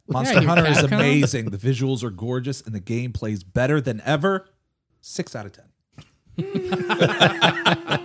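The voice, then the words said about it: Imitates a game reviewer's voice. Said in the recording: “That's my IGN impression.”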